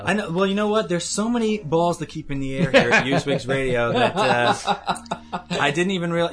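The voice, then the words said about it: Long Island accent. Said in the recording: “That mellifluous Long Island accent”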